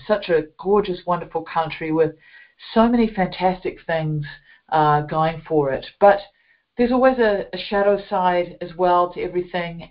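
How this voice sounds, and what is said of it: New Zealand accent. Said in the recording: “as you can hear from my accent, I grew up in a beautiful country of New Zealand”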